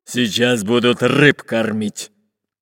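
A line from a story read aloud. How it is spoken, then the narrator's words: Deep booming voice. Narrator (Russian): пробасил пират Буль-Буль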